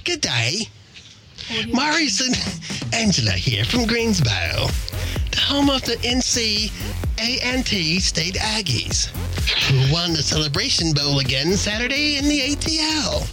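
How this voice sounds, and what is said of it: Put-on British accent. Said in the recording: “I'm going to read it in my British accent”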